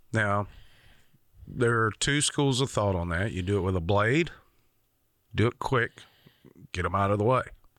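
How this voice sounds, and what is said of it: Rural regional accent. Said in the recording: “I grew up in a rural community. If you can't tell by my accent”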